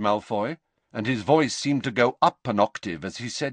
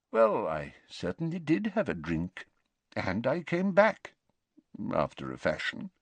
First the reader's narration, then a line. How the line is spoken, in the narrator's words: mumbled Dumbledore